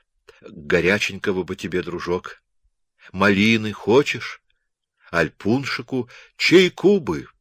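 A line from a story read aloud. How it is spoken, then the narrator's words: Pained moan. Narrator (Russian): простонал Аракчеев болезненно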